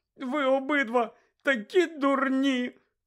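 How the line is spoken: Tearful shout. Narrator (Ukrainian): крикнула Герміона, заливаючись слізьми

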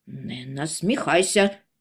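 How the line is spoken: Angry interruption, brother. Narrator (Ukrainian): сердито урвав її братчик

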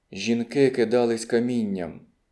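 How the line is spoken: Quiet reply. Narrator (Ukrainian): Вона тихо відповіла

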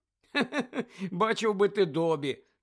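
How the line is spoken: Laughing. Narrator (Ukrainian): засміявся Гаррі

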